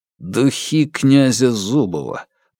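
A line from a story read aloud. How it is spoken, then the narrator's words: Words through clenched teeth. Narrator (Russian): процедил Алексей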